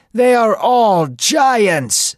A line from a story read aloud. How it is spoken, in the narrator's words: some people shouted